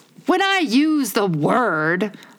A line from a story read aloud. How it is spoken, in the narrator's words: Humpty Dumpty said in a rather scornful tone